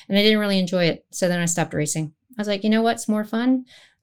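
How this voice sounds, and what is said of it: Slight twang, mixed American accent. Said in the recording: “Your accent, actually, there's a little bit of a twang there ... are you originally from New Zealand and then you went to America”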